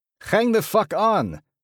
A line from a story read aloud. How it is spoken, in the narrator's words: He roars